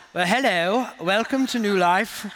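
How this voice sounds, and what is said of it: Attempted British accent sounding Australian. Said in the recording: “there is no cool accent... But when I try it, it comes out sounding Australian”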